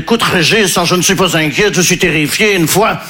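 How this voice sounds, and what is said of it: Put-on Belgian French accent. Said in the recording (French): “je prends l'accent belge parce que je ne sais pas faire l'accent ukrainien”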